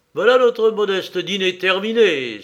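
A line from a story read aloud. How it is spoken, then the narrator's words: Exclaiming. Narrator (French): s'écria-t-il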